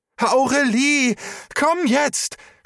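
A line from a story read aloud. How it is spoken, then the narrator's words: Shouting. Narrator (German): schrie Trisha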